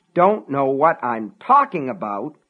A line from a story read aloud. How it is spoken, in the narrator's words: Frank sputtered